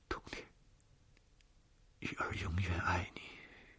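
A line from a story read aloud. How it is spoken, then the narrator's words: Soft, to oneself. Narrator (Chinese): 玉儿轻声地对自己说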